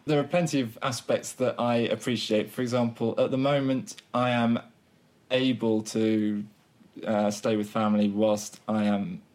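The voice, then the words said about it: Southern English accent. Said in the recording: “I have a Southern English accent”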